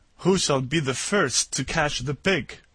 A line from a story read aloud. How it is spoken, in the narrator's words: the pirates began to sail the ship nearer, laughing with glee, and saying one to another